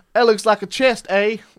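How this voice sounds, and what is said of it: Imperfect put-on Canadian accent. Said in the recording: “I don't feel so bad about my non-Canadian accent because I don't believe yours is spot on either.”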